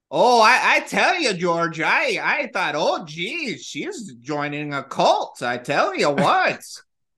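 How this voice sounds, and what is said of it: Put-on Midwestern American accent. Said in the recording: “I'm loving her accent, dude... I love that Midwest accent. I have so much fun doing it.”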